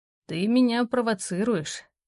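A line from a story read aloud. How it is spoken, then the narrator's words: Husky voice. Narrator (Russian): В его голосе появляется хрипотца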